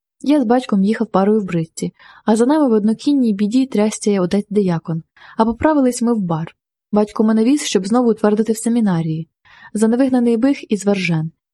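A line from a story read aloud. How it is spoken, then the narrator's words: Sighing. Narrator (Ukrainian): зітхнув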